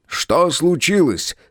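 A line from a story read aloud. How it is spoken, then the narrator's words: Shouting. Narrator (Russian): крикнул Птоклюсп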